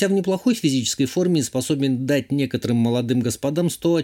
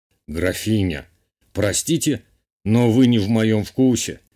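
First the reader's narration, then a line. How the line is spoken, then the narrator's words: Amused snorting remark. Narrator (Russian): хмыкнул герцог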